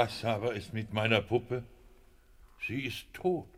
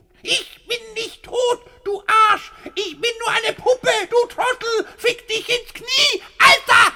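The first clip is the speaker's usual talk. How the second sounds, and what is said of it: Ventriloquist speaking in puppet voice. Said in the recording (German): “Ihr Gebiss wackelt ja, wenn Sie mit der Stimme der Puppe reden”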